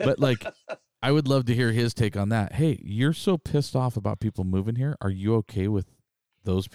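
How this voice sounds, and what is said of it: Usual voice. Nothing is said of it.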